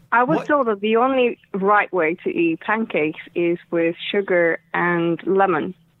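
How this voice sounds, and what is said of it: Estonian accent. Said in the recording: “Can I ask your accent? May I ask where you are originally from? ... I'm originally from Estonia.”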